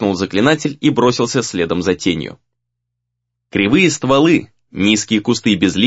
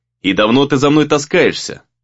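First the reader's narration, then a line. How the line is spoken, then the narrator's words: Menacing question. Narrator (Russian): грозно спросил Рэй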